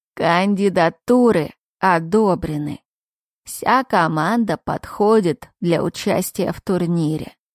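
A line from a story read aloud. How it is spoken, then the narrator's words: Old creaky voice. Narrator (Russian): самый старший из них проскрипел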